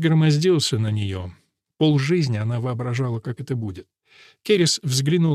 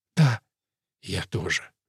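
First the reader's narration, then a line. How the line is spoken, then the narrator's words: Passionate whisper. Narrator (Russian): слишком разгоряченная, чтобы заботиться о последствиях, и прошептала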